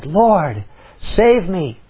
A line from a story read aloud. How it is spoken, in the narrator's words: he was afraid, and beginning to sink, he cried